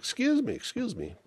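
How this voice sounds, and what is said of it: Upper-class British accent. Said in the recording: “Proper British accent, upper class British accent.”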